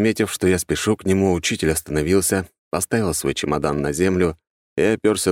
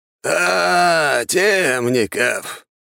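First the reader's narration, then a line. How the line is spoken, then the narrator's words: Old man's hoarse wheeze. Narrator (Russian): прохрипел старик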